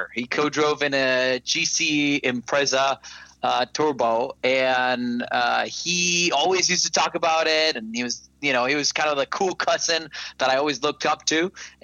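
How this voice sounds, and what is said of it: Costa Rican accented English. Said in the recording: “I sound a little weird and I have a weird accent. ... I am not originally from the U.S. I'm from Costa Rica.”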